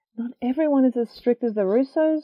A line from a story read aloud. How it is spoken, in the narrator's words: Zoe blurts out